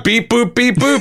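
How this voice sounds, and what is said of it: Mechanical robot voice. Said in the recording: “a pretty disrespectful impression of a robot ... going to do a robot voice”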